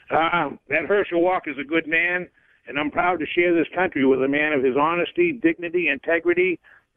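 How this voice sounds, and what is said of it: Northeastern US accent. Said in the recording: “That's a great Massachusetts accent there calling in... Great Northeastern accent.”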